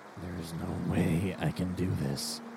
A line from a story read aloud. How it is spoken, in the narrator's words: he muttered, barely audible